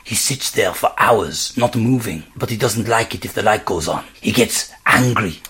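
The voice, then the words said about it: Whispered French accent. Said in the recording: “he whispered in a French accent ... whispered the man, still with a French accent. Yeah, definitely still with a French accent.”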